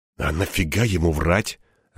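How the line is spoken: Puzzled mutter. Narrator (Russian): озадаченно пробормотал я

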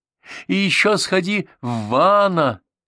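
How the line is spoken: Shouted. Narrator (Russian): крикнула

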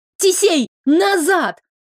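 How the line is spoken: Yelled. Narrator (Russian): заорала я

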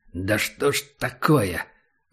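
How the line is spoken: Cursing through teeth. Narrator (Russian): выругался Убер сквозь зубы

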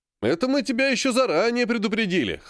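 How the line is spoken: Chuckling. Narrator (Russian): хохотнул Серый

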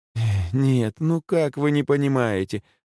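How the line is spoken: Sighing. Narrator (Russian): вздохнула Наталья Никифоровна

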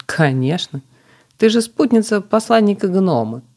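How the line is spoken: Laughing. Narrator (Russian): засмеялась собеседница

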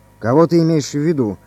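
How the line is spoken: Stern question. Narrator (Russian): спросил генерал строго

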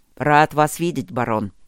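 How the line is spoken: Growling greeting. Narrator (Russian): рычаще поприветствовал он

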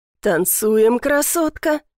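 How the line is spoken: Hoarse whisper in ear. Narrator (Russian): хрипло шепчет мне в ухо незнакомый голос

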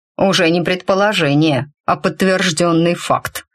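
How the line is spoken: Cutting, emphatic statement. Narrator (Russian): припечатал мрак

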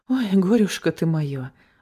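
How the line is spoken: Sighing. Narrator (Russian): вздохнула

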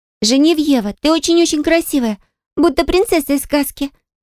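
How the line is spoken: Exclamation. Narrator (Russian): воскликнула Кара

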